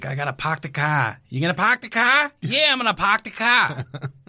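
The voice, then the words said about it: Put-on Boston accent. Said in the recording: “a Boston accent ... Oh, God, that's such a bad accent.”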